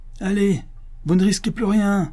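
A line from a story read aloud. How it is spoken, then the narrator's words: Exasperated exclamation. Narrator (French): s'écria l'abbé, poussé à bout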